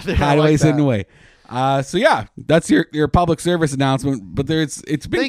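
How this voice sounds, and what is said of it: Worn-out voice. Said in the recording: “I can't talk anymore. I was screaming at boylesque dancers all day.”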